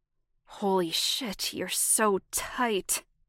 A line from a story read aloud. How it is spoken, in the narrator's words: Jamie hissed